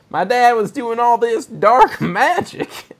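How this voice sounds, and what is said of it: Weak attempt at Southern US accent. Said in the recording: “I can't do a southern accent.”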